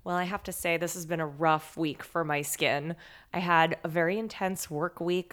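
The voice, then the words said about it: Tired, strained voice. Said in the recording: “I'm tired. You can hear my voice is suffering... I'm fraying a little bit.”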